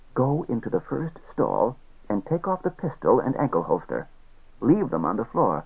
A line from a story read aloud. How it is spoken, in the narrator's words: whispered in his ear